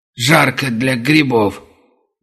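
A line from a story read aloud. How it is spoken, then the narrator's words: Indistinct grumble. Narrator (Russian): невнятно пробурчал таксист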